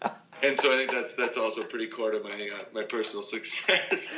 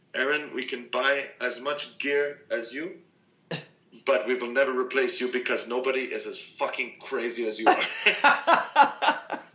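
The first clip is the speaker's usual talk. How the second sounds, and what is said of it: Poor put-on Finnish accent. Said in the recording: “That was a pretty shitty Finnish accent”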